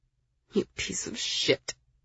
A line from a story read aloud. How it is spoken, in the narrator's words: I muttered